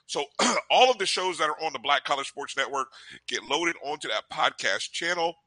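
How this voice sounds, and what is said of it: Hoarse, strained voice. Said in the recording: “Losing my voice. ... Talk so long, you lost your voice.”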